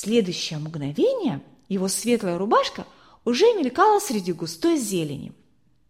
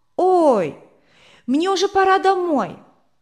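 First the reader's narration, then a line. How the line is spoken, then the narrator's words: Sudden anxious shout. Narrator (Russian): А Рудик вдруг вспомнил, что тетя Берта не разрешает ему задерживаться после школы, и выкрикнул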